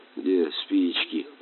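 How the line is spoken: Muttering. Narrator (Russian): бормотал капитан

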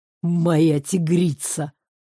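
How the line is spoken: Pleased growl. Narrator (Russian): рыкнул довольно Картер

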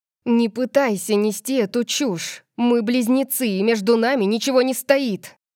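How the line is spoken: Snapping. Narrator (Russian): Огрызнулась она на него

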